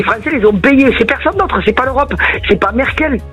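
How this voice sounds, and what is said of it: Sing-song southern French accent. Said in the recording (French): “votre accent chantant”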